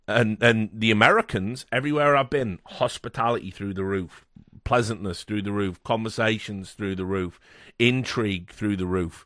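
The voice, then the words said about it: British accent. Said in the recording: “you're a white man with a British accent”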